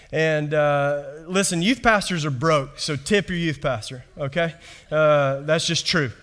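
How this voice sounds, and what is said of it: Kentucky accent. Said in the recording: “my accent ... I'm not from around here ... I was raised in Kentucky”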